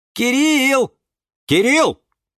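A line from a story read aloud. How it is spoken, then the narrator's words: Shouting. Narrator (Russian): кричал Юра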